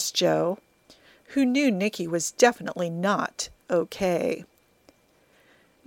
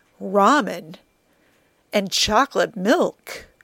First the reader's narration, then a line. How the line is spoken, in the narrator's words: Joe ... gasped